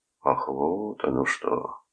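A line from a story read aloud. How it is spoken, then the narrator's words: Drawn-out drawl. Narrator (Russian): протянул Бойлон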